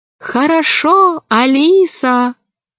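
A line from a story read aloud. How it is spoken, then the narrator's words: Thin voice, dolphin. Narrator (Russian): дельфины … один … сказал тонким голосом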